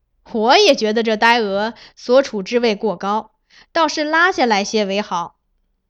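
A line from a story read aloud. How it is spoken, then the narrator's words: Agreeing, laughing. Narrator (Chinese): 崔白当即附和，笑道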